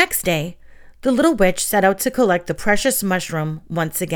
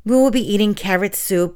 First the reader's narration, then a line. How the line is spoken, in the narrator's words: sighed